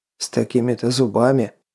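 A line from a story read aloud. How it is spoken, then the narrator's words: Snort. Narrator (Russian): хмыкнул наемник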